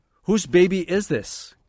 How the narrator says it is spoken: Kaki spoke loudly

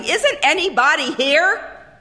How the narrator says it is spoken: the voice suddenly become raucous, shouting

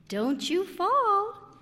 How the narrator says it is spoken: warned him sweetly

